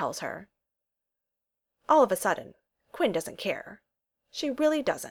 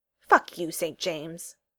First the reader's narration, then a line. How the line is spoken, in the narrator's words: snaps